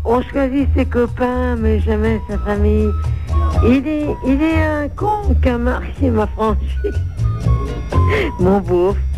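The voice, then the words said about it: Sung imitation of a singer. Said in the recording (French): “une petite imitation de Renaud”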